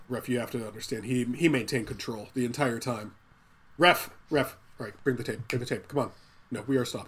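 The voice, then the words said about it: Imitates another person's voice. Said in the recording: “we're not really doing a good impression of him. He's very calm throughout the movie”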